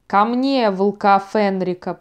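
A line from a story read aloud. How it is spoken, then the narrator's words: Thundering. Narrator (Russian): прогремел он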